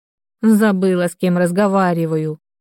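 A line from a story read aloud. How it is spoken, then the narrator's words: Snort. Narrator (Russian): фыркнула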